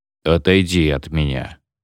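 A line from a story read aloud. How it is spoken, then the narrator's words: Gloomy. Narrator (Russian): мрачно сказал Врангель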